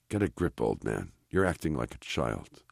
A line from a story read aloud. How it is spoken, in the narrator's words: he whispers to himself